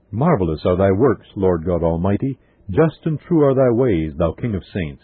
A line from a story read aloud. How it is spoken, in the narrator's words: all with one voice exclaim